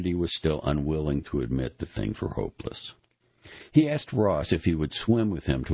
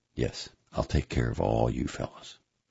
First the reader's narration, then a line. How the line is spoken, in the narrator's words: McGuire said quietly